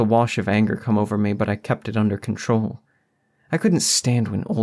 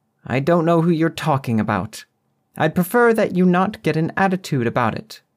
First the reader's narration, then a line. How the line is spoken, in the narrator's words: she snapped back